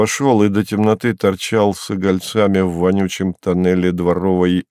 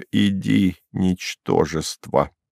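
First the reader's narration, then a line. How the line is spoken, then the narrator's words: Quiet. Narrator (Russian): Она проговорила тихо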